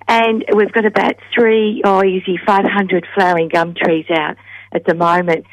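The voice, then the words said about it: Husky voice. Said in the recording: “excuse my voice, it's a bit husky. Too much gardening.”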